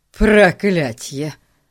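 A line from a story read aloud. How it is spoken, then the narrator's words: Barked. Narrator (Russian): рявкнул он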